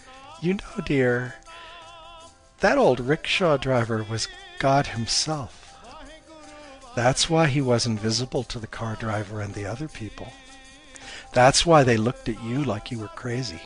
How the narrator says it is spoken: Her mom chuckled and said

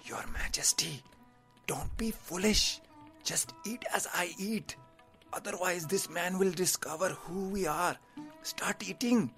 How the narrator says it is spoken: The advisor whispered to him

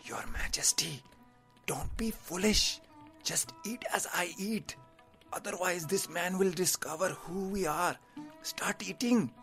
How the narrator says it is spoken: The advisor whispered to him

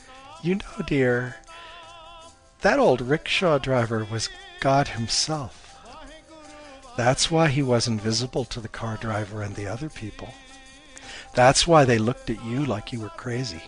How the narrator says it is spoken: Her mom chuckled and said

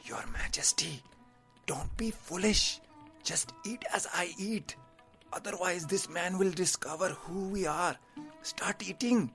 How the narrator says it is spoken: The advisor whispered to him

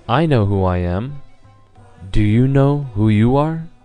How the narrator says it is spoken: Lord Buddha, again, calmly looked in his eyes, and he said

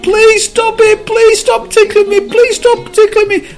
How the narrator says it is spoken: the cup screamed

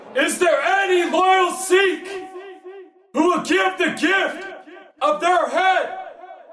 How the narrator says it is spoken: roared

